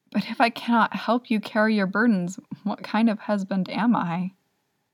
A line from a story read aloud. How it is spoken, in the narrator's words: Wei Wuxian asks, smiling a little sadly